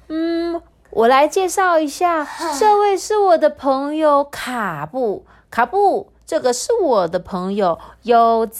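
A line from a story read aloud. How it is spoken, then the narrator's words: Loud after deep breath. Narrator (Chinese): 深呼吸了一大口气，大声的说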